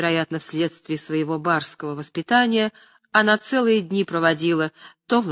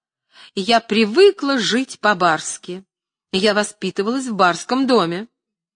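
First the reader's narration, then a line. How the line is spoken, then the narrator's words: Shouting. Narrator (Russian): она кричала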